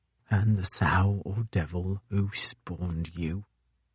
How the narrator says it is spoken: mumbled the Ice Master through numb, frozen lips

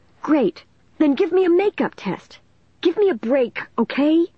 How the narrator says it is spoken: Dennis pleaded

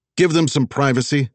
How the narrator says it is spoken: Wags barked at stroller man

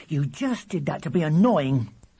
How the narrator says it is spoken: said William angrily

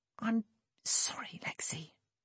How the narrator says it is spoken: he whispered

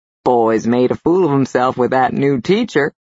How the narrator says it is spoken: Frank chuckled

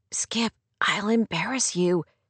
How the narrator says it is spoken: she protested in a low whisper

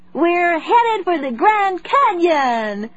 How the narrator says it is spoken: Zoe shouted

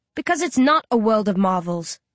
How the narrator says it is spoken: I snarl

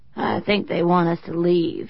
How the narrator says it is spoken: he said hoarsely

